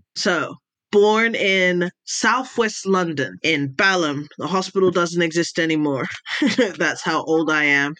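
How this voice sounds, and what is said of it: Flat, hard-to-place accent. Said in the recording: “I have one of those accents where you're not sure. I have what's called a flat accent.”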